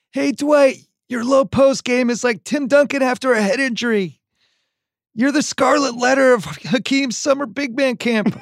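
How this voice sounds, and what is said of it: Jeff Ross impression. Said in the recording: “I'm trying to do a Jeff Ross impersonation.”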